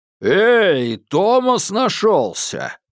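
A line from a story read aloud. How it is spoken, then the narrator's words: Roaring. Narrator (Russian): проревел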